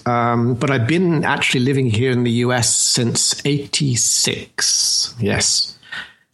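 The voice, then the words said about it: British London accent. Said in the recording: “You speak with an accent that indicates that you're somewhere that you probably are not. ... British accents ... I am in fact from London”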